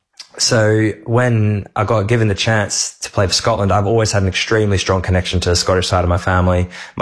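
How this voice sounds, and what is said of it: Mixed Scottish-Australian accent. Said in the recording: “I used to want to have a Scottish accent. So I always had this kind of weird in-betweeny accent, even as a kid.”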